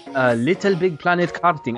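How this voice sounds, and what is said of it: Put-on Japanese accent. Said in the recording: “in a Japanese accent”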